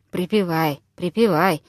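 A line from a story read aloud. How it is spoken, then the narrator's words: Muttered under breath. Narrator (Russian): в полголоса пробормотал Виктор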